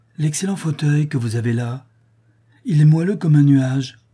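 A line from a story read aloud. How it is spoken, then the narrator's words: Blissful exclamation. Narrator (French): s'écria-t-il avec un sourire de béatitude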